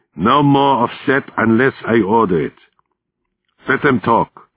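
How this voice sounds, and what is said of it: Heavy German accent. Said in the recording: “spoke in English with a heavy German accent.”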